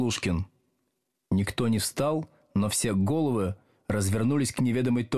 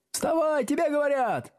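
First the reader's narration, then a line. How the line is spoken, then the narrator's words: Several voices shouting obligingly. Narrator (Russian): услужливо закричали несколько голосов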